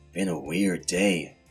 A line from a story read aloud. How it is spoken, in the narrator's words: mumbled